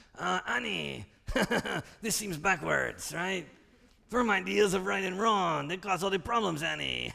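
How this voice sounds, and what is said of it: Cartoonish alien character voice. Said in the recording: “In your favorite Watto voice from Tatooine”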